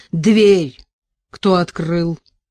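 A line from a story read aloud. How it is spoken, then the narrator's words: Wooden-voiced question. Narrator (Russian): деревянным голосом спросил он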